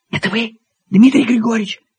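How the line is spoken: Female whispered question. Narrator (Russian): спросил женский шепот

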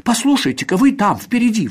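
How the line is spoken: Exclamation. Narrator (Russian): воскликнула она

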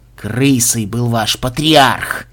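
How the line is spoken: Angry mumble. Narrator (Russian): Зло сверкнув глазами, пробубнил Казимир

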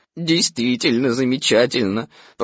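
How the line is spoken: Glum, dreary tone. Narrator (Russian): продолжал я самым унылым тоном

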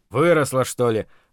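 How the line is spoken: Laughing. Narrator (Russian): рассмеялся Зарубин, поняв, в чем дело

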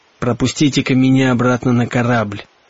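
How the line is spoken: Polite, hoarse. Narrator (Russian): вежливо хриплым голосом сказал он

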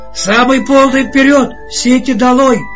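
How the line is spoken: Hoarse shout, captain. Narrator (Russian): кричал сразу осевшим голосом капитан

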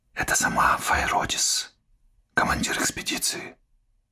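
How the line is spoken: Whisper. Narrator (Russian): шепнула Пуна

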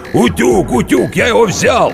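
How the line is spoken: Shouting. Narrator (Russian): кричал

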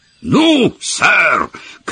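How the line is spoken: Shout hoarse with excitement. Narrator (Russian): крикнул он хриплым от волнения голосом

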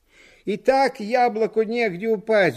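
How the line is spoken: Several people shouting. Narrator (Russian): закричали на нас в тамбуре

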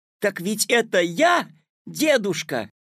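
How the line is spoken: Delighted shout. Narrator (Russian): обрадованно закричал Петя

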